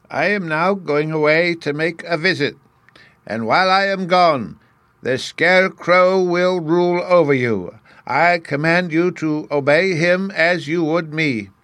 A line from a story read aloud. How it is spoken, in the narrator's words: Oz said to all the people in a loud voice